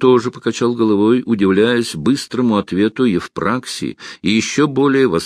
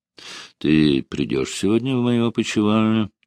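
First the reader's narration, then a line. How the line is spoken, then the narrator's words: Soft whisper. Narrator (Russian): тихо прошептал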